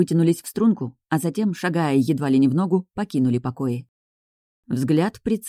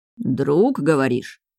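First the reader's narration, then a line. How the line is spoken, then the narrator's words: Skeptical grunt. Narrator (Russian): хмыкнул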